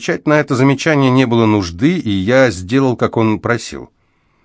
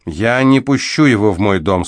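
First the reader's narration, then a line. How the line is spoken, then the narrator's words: Calm. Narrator (Russian): спокойно сообщила она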